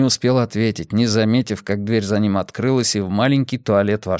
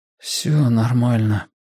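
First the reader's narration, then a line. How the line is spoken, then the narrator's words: Uncertain mumbling. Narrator (Russian): неуверенно пробурчал он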